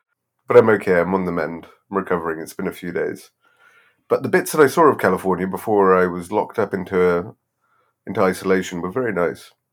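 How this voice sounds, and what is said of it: Sick, ill-sounding voice. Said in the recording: “I immediately caught COVID. ... so you can probably hear in my voice”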